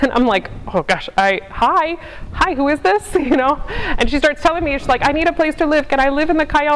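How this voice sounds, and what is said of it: Usual voice. Nothing is said of it.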